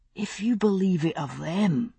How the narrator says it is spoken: he said, his voice little more than a whisper

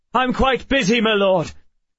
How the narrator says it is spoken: cried the other guard

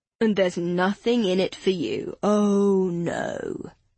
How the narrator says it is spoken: Joe said, his voice dripping with sarcasm

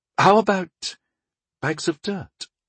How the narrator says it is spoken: offered Rundal, hesitantly

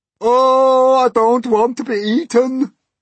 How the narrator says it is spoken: wailed the earthworm

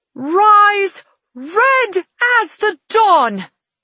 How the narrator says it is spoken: she shouts

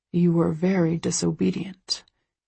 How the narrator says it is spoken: he murmurs in my ear

